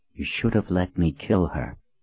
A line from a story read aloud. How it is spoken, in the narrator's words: Kara leaned toward Colin to whisper in her ear